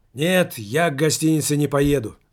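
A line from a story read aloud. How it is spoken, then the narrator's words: Shouting. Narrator (Russian): закричал шофер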